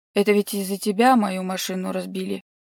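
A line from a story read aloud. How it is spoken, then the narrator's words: Irritated hiss. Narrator (Russian): раздраженно шипит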